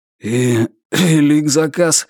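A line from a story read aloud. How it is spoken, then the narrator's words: Suddenly hoarse question. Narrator (Russian): спросил он внезапно охрипшим голосом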